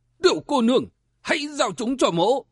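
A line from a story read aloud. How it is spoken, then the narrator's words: Loud shout. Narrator (Vietnamese): quát to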